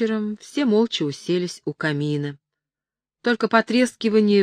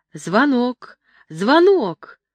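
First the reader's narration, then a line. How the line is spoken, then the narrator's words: Joyful boy's shout. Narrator (Russian): один из мальчиков радостно закричал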